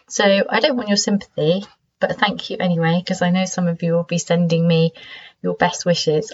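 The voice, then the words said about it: Congested voice from a cold. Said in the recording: “Maybe you can hear from my voice that I've got a cold.”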